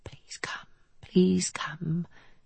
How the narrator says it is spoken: She whispering

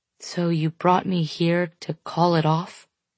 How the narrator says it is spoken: He sighs heavily

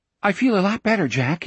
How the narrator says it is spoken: he said hastily

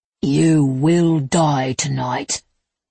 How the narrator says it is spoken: he growled

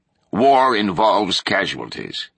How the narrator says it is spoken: Pickering said, his voice firmer now

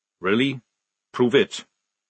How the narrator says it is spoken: said Jackram calmly

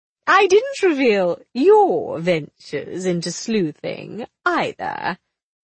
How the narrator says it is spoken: Willie said, her voice mischievous

